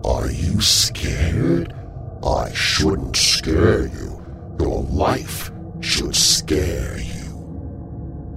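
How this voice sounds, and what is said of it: Eerie close whisper. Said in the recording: “whispering centimeters away into my ear”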